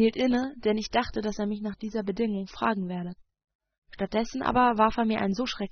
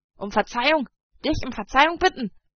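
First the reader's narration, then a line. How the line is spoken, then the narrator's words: Shouted. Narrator (German): schrie er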